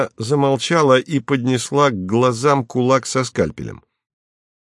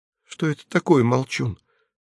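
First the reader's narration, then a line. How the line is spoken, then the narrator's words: Whisper. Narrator (Russian): сказала, наконец, Нава шепотом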